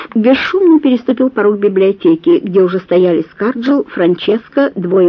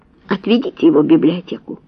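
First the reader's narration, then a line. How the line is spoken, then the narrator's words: Count's gentle command. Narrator (Russian): мягко приказал граф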